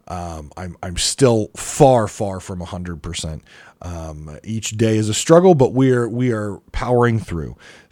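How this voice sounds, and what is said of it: Low-energy, unwell-sounding voice. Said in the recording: “You can probably hear in my voice. You can probably hear my energy levels are very low.”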